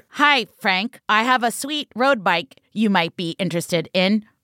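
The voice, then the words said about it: Imitation of TV reenactment actor. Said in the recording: “my imitation of reenactment”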